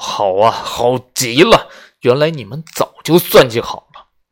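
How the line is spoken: Roaring. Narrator (Chinese): 他咆哮道

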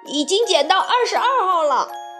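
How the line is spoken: Lookout shouting. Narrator (Chinese): 在一旁把风的鼻涕虫喊道

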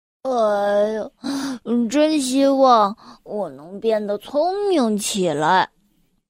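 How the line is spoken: Sighing. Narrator (Chinese): 他叹着气说道

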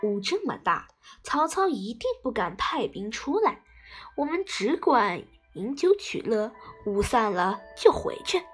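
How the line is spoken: Laughing. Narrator (Chinese): 诸葛亮笑着说

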